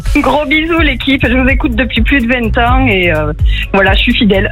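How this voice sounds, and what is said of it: Southern French Aveyron accent. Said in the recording (French): “l'accent de t'es dans l'Aveyron ... c'est le sud ... vous avez un bel accent dans l'Aveyron”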